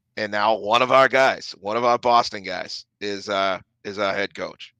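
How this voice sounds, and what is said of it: Boston accent slipping through. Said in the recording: “I just slipped my accent there. That's not great.”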